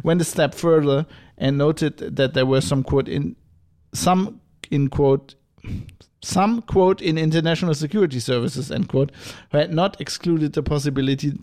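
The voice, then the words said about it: Put-on German accent. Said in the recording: “I'm going to go back into my German accent.”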